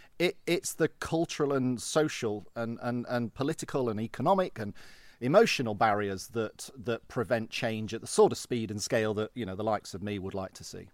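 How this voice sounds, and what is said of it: English Midlands (Derby) accent. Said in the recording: “Derby, but Nottingham? ... I spotted the accent.”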